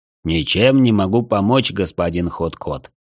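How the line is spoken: Plain. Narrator (Russian): ответил он

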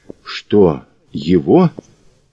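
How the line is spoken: Quiet. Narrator (Russian): тихо сказала Ольга

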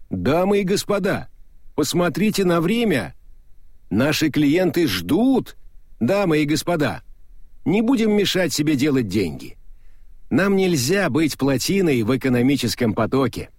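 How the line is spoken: Shout through cupped hands. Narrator (Russian): Мокрицу пришлось поднести ладони ко рту и прикрикнуть

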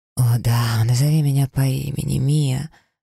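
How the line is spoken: Breathless, barely restrained. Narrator (Russian): выдохнул он, с трудом сдерживаясь

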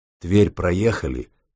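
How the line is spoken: General's deep-voiced question. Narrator (Russian): густым голосом спросил генерал

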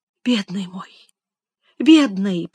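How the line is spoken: Whisper. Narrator (Russian): прошептала Элиза

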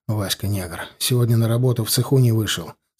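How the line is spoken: Said in undertone. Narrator (Russian): сказал я вполголоса

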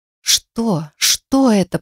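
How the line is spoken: Hoarse, groaning. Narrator (Russian): прохрипела я и застонала

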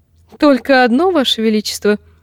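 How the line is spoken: Giggling. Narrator (Russian): хихикнула Марджери

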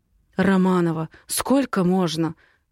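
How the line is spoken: Hoarse male voice. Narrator (Russian): хрипит он

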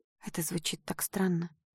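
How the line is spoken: Whispered. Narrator (Russian): прошептала я

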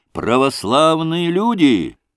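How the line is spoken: Crowd shouting across square. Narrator (Russian): кричали в разные концы площади

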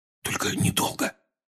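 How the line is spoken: Whisper. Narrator (Russian): шепнул Рон

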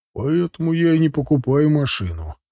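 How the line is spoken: Wry snort. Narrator (Russian): хмыкнул батя

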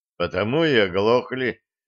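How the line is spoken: Heavy sigh. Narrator (Russian): тяжело вздохнул командир

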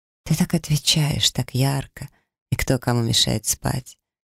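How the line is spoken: Soft laugh. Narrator (Russian): тихо рассмеялся он

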